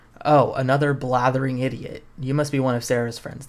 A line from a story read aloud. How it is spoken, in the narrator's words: the voice says